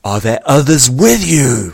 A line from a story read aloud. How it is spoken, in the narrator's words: VORR bellowed